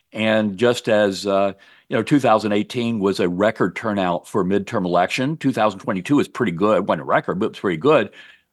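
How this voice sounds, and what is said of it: Slight Southern drawl. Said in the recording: “You do still have a bit of that Southern drawl, even though you're living in Maine.”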